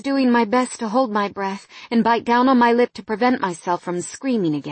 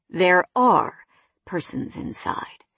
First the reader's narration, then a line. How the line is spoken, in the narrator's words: Jonathan answered calmly